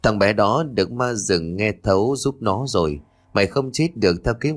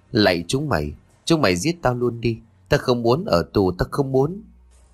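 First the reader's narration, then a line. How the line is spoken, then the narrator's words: Shivering, teeth-chattering hiss. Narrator (Vietnamese): Tôi rét run cầm cập, răng đập đập muốn cắn lưỡi, cố rít thành tiếng lập bập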